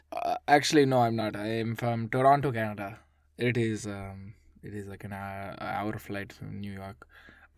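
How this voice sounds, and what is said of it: Very strong put-on accent. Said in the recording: “I noticed you have a very strong accent.”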